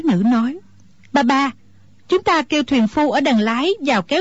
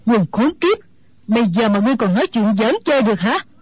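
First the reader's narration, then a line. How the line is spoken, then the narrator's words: Old woman's angry shout. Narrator (Vietnamese): Mụ già tức giận quát lên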